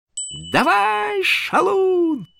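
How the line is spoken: Yelling. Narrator (Russian): завопила она

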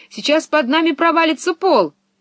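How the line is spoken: Girl shouting. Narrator (Russian): Пеппи закричала

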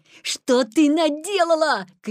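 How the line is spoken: Shout. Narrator (Russian): крикнул Петя

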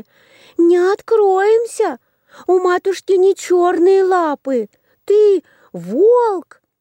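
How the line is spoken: Young goats shouting. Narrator (Russian): козлятки … закричали

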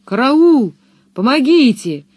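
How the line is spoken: Terrified wailing. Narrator (Russian): вопил он, полумертвый от страха

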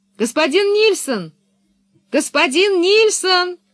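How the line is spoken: Full-throated yell. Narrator (Russian): заорала она во все горло

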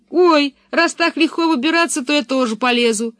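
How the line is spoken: Shouting. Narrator (Russian): крикнул Томми

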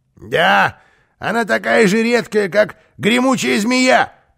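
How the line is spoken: Grumbling. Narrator (Russian): проворчал Карлсон

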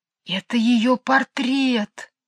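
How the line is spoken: Whisper. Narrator (Russian): сказала она шепотом

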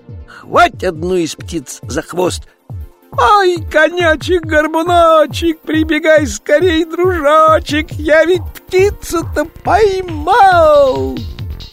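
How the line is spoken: Shouted. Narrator (Russian): Так Иван-дурак кричал

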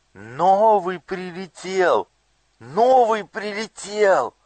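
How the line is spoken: Child shouting. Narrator (Russian): самый младший из них закричал

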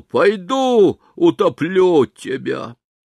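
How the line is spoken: Shouted. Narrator (Russian): крикнул

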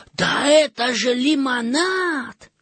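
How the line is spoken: Surprised exclamation. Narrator (Russian): Жан удивленно воскликнул

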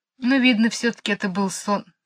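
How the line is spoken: Sad. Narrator (Russian): сказала она грустно

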